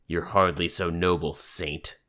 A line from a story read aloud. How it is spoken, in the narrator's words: Defiant said, his voice a growl